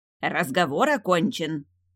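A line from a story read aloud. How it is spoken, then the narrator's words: Barked. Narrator (Russian): рявкнула настоятельница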